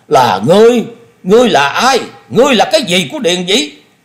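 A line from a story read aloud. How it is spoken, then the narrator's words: Exasperated roar. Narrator (Vietnamese): Thôi Công Đức hết nhịn nổi, y gầm lên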